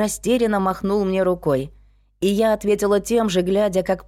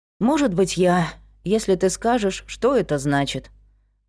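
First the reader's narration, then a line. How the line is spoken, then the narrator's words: Tired. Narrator (Russian): Устало сказала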